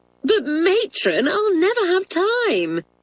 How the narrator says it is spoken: said Doris, laughing at Matron's annoyed face

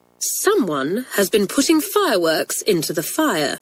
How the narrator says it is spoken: she said

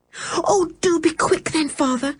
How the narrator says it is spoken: cried George, getting in quite a panic now

